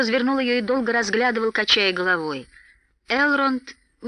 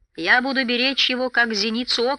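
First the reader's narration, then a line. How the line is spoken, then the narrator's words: Plain. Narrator (Russian): сказал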